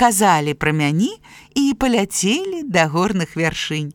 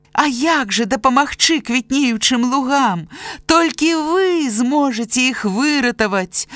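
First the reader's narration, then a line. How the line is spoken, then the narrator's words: Desperate birds crying out. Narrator (Belarusian): адчайна крыкнулі птушкі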